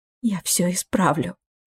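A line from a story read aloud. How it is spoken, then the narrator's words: Whisper. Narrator (Russian): прошептала она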